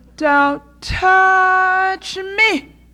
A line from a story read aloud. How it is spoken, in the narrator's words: cried the little fairy-like being in the playground